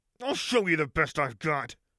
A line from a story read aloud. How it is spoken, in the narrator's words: Lux snarled